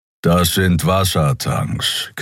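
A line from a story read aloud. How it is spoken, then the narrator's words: Growling. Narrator (German): knurrte Keero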